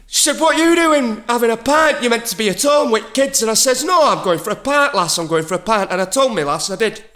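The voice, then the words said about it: Put-on Sheffield Yorkshire accent. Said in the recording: “What all these accents ... We're going to Sheffield.”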